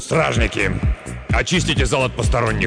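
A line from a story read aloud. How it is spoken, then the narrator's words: Hoarse command. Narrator (Russian): хрипло распорядился судья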